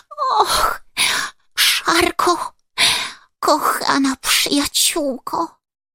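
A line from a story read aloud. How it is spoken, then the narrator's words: Sobbing, trembling with fear. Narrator (Polish): szlochała Ładka, wciąż jeszcze drżąc ze strachu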